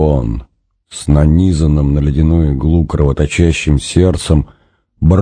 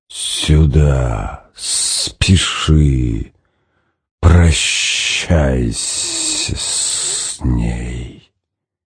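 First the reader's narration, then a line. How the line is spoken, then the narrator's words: Hissing inner voice. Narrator (Russian): зубастая волна прошипела в глубине стиснутого болью сознания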